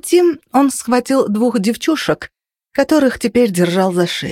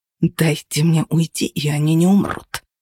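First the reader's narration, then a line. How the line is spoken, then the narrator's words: Hostile hiss. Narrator (Russian): прошипел он, уже не пытаясь льстить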